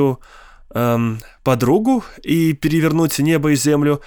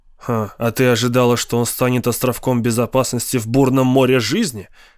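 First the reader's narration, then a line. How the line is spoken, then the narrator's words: Smirking snort. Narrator (Russian): хмыкнул Теннисон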